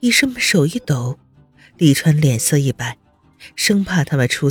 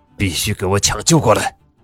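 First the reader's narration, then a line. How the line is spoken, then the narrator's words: Low growl. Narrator (Chinese): 宋世清……低声吼道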